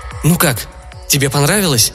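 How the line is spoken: Excited question. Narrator (Russian): взволнованно спросил режиссер

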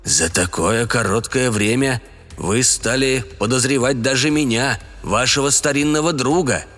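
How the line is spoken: Grumbling mutter. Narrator (Russian): пробурчал Слуут

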